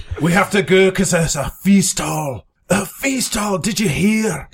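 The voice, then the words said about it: Speaks in a put-on character accent. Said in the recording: “I just had to get into my accent.”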